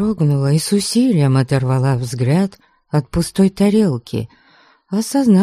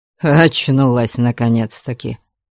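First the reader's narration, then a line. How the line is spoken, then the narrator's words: Snorting. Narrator (Russian): фыркнул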